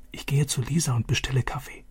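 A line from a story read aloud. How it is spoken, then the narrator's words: Whispered. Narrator (German): flüsterte Vater zu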